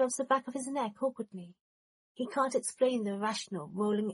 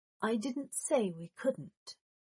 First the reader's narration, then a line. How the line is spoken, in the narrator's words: said softly